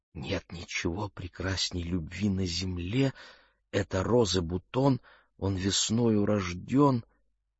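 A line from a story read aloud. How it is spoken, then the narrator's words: Anxious whisper. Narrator (Russian): Мэгги почувствовала беспокойство и прошептала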